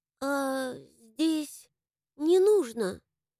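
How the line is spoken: Hesitant sudden interruption. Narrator (Russian): Неуверенно вдруг перебил Микки

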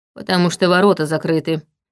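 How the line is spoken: Gloomy reply. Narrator (Russian): мрачно ответил Витал

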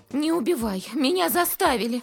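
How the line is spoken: Shriek. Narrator (Russian): взвизгнула

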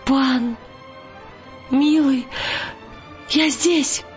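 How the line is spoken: Trembling, sobbing cry. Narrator (Russian): дрожа и рыдая

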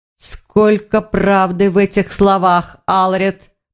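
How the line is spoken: Growling. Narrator (Russian): прорычал Грифон

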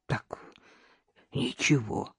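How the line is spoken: Hoarse mutter. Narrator (Russian): пробормотал он севшим голосом

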